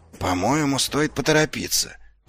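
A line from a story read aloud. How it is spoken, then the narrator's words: Whispered. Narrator (Russian): прошептал Ваймс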